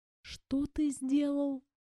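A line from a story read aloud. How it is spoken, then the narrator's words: Disbelieving whisper. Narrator (Russian): прошептала я, не веря в то, что слышу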